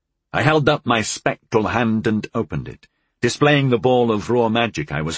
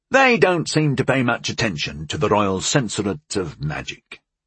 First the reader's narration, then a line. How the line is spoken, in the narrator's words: I said dryly